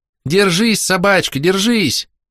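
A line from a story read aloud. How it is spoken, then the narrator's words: Shouting. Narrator (Russian): кричал Джек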